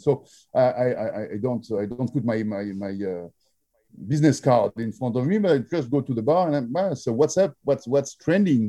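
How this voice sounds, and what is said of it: French accent. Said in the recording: “he heard my, of course, French accent ... Can't you hear?”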